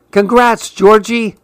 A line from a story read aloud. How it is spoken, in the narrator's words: Anaya squeals